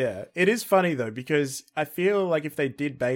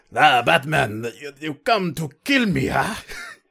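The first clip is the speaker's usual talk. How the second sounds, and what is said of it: Put-on Russian-sounding villain accent. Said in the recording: “Bane's actual accent ... So he's Russian?”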